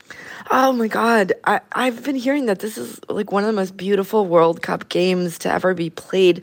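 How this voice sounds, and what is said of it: Raspy voice. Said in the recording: “my voice is a little raspy. I've been screaming for like 5 hours straight.”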